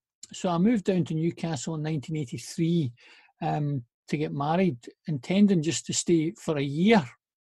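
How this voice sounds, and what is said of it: Noticeable regional accent. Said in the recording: “you've never lost your accent”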